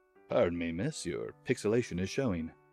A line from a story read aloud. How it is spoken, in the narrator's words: In the suavest voice I could muster, I said